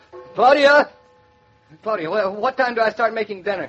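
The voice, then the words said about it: Shouting. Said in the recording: “What are you shouting for? ... I'm shouting”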